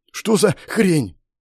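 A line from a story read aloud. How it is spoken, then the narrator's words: Surprised gasp. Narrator (Russian): Удивленно выдохнуло Женя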